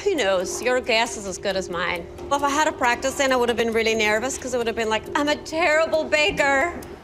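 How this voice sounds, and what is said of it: Strong regional accent. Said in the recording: “You've got quite a strong accent”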